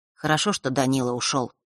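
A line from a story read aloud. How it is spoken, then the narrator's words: Quiet. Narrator (Russian): тихо сказал он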